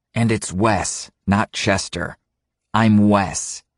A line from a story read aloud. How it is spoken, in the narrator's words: He then looks firmly at Eric, saying